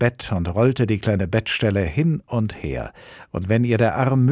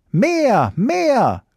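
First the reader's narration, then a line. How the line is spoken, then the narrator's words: Shout. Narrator (German): schrie Hävelmann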